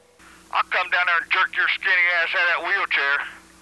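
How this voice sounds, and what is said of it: Appalachian hick accent. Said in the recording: “You sound like an Appalachian-style hick.”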